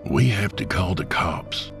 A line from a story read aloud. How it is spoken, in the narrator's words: Jacob whispered